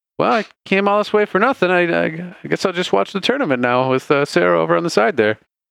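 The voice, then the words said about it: Slight put-on character accent. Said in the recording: “I'm starting to slip into that accent a little bit now.”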